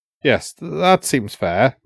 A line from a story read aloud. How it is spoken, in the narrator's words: muttered, back to his customary vagueness